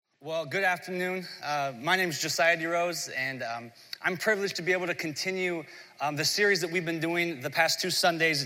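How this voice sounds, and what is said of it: Hoarse, strained voice. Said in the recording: “losing my voice on Thursday. So I'm still in recovery mode... I'm like a pony with a sore throat. I'm a little hoarse.”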